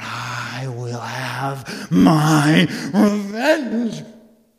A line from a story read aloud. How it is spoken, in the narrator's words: her mother just screamed out